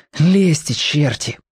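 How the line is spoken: Breathless exhale. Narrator (Russian): выдохнул Тоник

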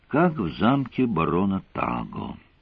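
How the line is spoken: Sigh. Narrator (Russian): вздохнула она

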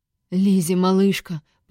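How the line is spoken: Habitual, plain. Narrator (Russian): по привычке проговорил он

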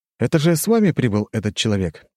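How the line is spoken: Curious inquiry. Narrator (Russian): поинтересовался я

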